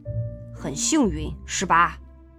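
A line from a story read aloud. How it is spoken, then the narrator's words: Low male voice. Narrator (Chinese): 男人低声说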